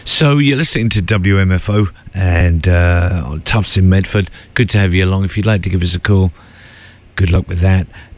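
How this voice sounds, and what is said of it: Congested voice from a cold. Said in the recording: “I have a cold, so apologies for that, and my stupid voice,”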